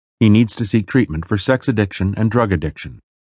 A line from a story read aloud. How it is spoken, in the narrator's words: she told me, her voice flat and hard, like it never was